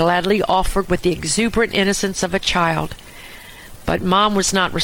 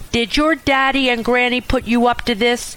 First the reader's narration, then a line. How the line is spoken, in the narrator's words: she snapped